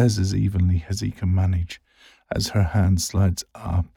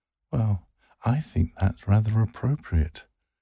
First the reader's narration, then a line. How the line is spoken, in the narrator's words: she giggles